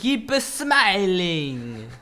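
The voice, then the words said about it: Odd put-on accent. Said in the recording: “I don't know what accent that was.”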